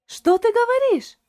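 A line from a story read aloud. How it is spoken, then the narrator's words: Surprised exclamation. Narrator (Russian): воскликнула Шарлотта и от удивления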